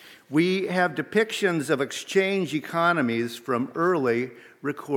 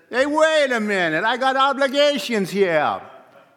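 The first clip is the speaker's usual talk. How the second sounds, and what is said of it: Put-on New Jersey Sopranos accent. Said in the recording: “in his best soprano's accent ... Sorry, New Jersey.”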